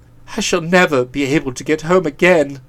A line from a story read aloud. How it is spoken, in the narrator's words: moaned, weeping tears of despair